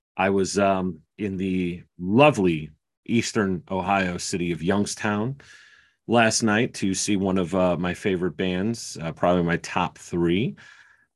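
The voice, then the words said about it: Slightly hoarse voice. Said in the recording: “my voice sounds a little hoarse.”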